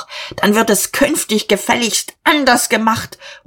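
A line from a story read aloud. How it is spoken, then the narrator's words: Overwhelmed shouting. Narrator (German): Dieterich fühlte sich einem Kompetenzstreit nicht gewachsen, er schrie noch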